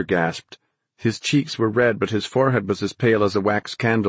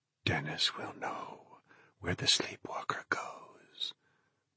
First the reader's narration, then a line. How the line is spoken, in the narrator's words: his father whispered